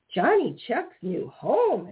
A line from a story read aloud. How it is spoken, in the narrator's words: exclaimed Peter Rabbit